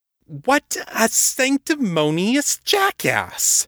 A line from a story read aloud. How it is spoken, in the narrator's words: Kate sputtered